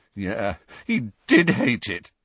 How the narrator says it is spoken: said Harry, his voice cracking

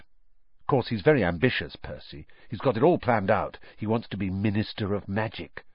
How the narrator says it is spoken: Ron told Harry and Hermione in an undertone

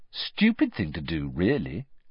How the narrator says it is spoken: said the voice

